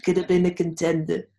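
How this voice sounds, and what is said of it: Imitates another person's voice. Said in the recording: “my Marlon Brando impression ... So good. That's good. ... That's pretty good.”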